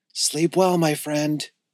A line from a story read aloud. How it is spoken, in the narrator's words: whispered Skylar